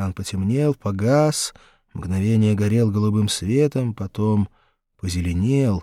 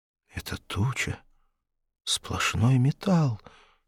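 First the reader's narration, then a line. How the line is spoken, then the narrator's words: Breathed out. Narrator (Russian): сказал, вернее, выдохнул кто-то за плечами Рохана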